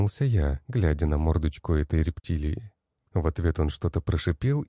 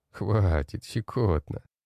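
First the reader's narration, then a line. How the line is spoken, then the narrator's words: Laughing. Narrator (Russian): просмеялся я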